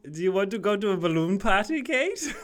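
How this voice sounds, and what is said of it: Put-on Irish accent. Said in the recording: “That was our Irish accent”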